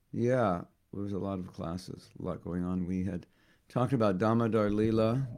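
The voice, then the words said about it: Slightly hoarse voice. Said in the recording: “lost my voice a little bit. Can you hear? I'm a little hoarse.”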